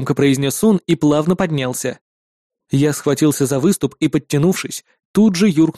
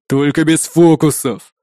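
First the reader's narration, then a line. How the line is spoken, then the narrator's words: Growling threat. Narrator (Russian): прорычал азиат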